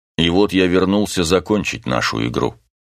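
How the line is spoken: Grim, after a pause. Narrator (Russian): Он сделал паузу, затем мрачно добавил

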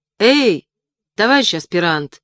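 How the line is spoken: Shouting. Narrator (Russian): крикнул я

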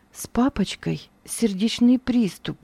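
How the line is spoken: Quiet whisper. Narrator (Russian): тихо мне она шепнула

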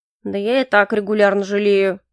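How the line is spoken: Grumbling. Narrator (Russian): проворчал Грей

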